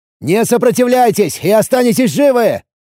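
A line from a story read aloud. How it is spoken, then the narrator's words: Shouted. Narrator (Russian): крикнул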